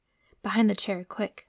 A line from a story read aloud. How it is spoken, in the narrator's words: whispered Pantalaimon